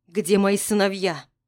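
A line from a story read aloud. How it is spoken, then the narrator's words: Sharp question. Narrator (Russian): резко спрашиваю я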